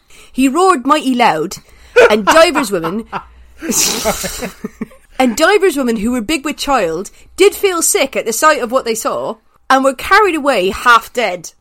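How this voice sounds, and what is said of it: Put-on ye olde West Country accent. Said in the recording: “a kind of a ye olde kind of accent? Which is going to be a West Country ... I can't do a Chaucerian accent because it literally sounds Welsh and I'm not that skilled”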